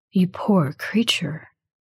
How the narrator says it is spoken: he says softly

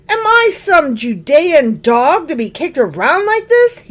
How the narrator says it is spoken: He shouted

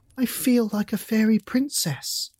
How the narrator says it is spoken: exclaimed

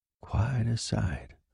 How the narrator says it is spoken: the soldier murmured

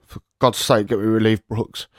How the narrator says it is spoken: only muttered out as I trembled

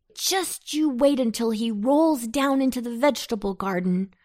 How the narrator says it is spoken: shouted Antone, as he chased the swiftly rolling pumpkin

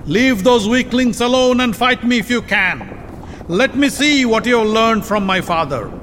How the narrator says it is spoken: He raised his voice and yelled at Arjun

